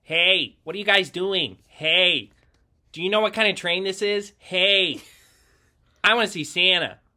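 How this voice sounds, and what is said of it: Imitates a nerdy kid's voice. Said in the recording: “my impression of him... that's my impression of the yellow sweatshirt kid... The nerd”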